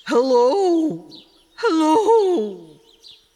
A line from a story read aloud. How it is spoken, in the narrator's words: roared